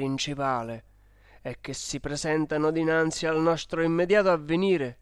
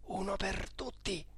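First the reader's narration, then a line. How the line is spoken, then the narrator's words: Murmuring. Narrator (Italian): Mario Michelozzi mi si è avvicinato mormorando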